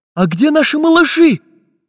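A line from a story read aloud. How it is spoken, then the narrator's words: Anxious question. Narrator (Russian): Взволнованно спросил карандаш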